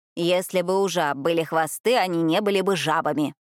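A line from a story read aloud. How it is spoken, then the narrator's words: Sharp interruption. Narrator (Russian): резко оборвала его графиня де Монтьель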